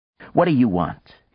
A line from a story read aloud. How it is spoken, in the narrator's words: he snapped